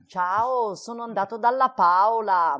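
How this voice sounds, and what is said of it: Put-on Bergamasque northern Italian accent. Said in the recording (Italian): “che cadenza bergamasca!”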